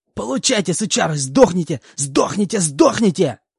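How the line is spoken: Hysterical full-throated screaming. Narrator (Russian): Кто-то истерически кричал во всю глотку, и этот голос мне был знаком

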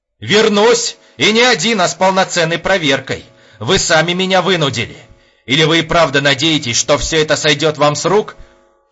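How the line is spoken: More restrained shouting. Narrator (Russian): Кричал Епифанов, но уже гораздо деликатнее

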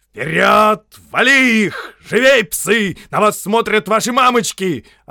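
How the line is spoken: Yelling. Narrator (Russian): орал полковник Харнес

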